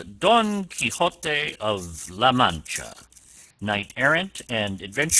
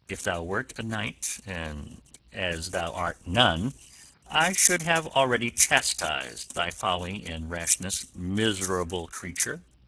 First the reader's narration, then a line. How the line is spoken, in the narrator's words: Don Quixote answered him very quietly